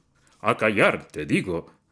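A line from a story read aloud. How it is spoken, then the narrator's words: Bellowing. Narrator (Spanish): bramó Yevgraf Ivanovich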